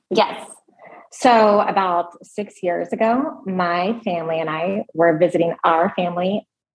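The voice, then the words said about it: Raspy voice. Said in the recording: “It's a little different today ... A little raspy.”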